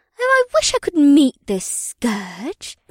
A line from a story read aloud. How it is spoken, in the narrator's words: Ibsith said in a whimsical tone